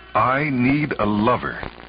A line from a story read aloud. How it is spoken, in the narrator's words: she said firmly to herself